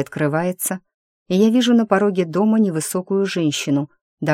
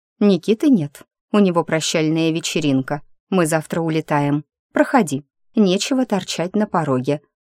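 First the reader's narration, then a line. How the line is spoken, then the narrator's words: Dry. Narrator (Russian): сухо говорит Ермолова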